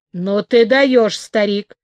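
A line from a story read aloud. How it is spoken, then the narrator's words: Grumbling rabbit. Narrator (Russian): проворчал кролик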